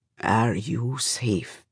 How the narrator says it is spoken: He asks then, quietly

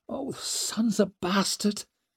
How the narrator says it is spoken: she muttered

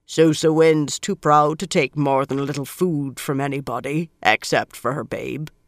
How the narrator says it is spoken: she said, in a deep voice for a woman

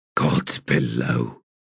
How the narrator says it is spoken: he muttered

